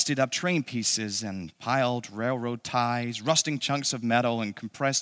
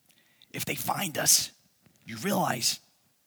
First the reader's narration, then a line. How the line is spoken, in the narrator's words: Val kept saying in a hoarse stage whisper